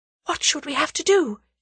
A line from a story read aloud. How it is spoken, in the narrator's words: she breathed